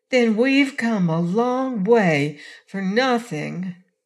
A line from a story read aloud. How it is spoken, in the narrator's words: exclaimed Trot regretfully